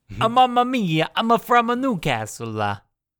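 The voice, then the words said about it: Thick put-on Italian accent. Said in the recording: “Just the thickest Italian accents you've ever heard.”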